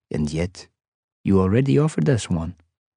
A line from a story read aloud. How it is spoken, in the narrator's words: Abraham said calmly